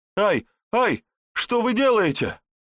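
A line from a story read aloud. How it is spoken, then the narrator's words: Terrified scream. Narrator (Russian): В ужасе закричал герр Отто Штальке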